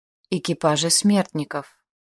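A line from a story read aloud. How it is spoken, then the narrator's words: Breathless exhale. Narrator (Russian): выдохнула я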